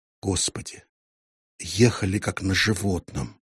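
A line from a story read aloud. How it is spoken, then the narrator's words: Whispered, giant. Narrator (Russian): прошептал гигант-механик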